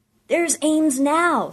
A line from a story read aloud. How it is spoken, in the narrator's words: someone shouted